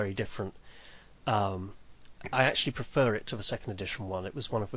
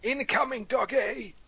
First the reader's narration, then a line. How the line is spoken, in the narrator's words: you yell